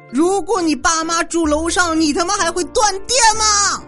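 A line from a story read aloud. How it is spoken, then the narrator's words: Loud shout. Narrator (Chinese): 来串门玩的未来啊就冲出阳台，大声喊道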